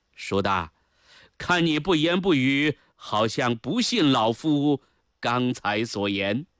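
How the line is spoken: Smiling question. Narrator (Chinese): 高拱笑着问道

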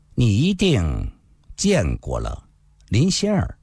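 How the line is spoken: Slow after long silence. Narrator (Chinese): 林世英沉默了半晌，缓缓地说道

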